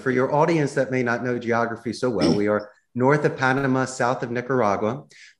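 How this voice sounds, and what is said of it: Philadelphia accent. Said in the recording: “I emphasize my Philadelphia accent a little bit more”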